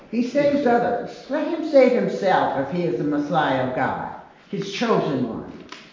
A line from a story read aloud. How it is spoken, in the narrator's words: the leaders scoffed at him, saying